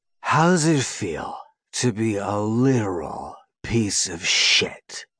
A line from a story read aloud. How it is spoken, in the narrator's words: He growls at him with a disgustingly smug smile